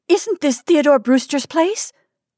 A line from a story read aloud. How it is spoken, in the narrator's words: gasped Kate